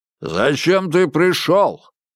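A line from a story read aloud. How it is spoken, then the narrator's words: Booming, loud question. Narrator (Russian): зычным голосом спросил он, легко перекрыв шум людей за спиной Крысолова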